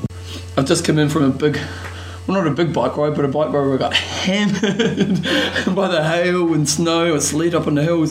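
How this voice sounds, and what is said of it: Voice chattering, shivering from cold. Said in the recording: “you may notice that my voice is chattering because I was that cold”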